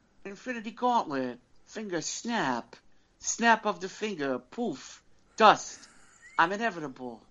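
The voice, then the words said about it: Weak Christopher Walken impression. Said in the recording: “I don't think I can do the voice. ... I can't do Christopher Walken well enough.”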